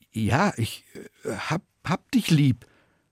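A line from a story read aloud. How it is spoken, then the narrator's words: Stammering. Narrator (German): Petrus stammelt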